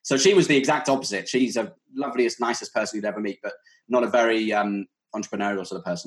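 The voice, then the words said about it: British English accent. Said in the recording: “what's his accent? ... my accent will get, or a British accent will be confused with Australian ... I'm based in the UK, about an hour away from London, so South England”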